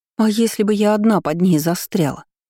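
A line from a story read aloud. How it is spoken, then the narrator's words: Indignant exclamation. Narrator (Russian): воскликнула возмущенно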